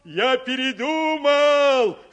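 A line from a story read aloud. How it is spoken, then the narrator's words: Loud, to be heard. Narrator (Russian): сказал он так громко, чтобы его услышали в домике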